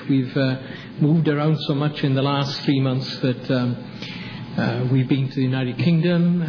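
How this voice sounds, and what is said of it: Welsh accent. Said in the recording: “from my accent you realize I'm not a native southern dweller, nor am I from North Carolina by birth. But my wife Anne and I are from Wales originally”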